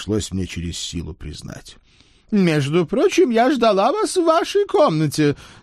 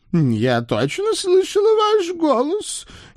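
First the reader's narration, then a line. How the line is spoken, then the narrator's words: Uncertain drawl, old woman. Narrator (Russian): не очень уверенно протянула любвеобильная старушка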